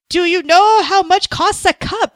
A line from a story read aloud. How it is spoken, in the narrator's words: kept yelling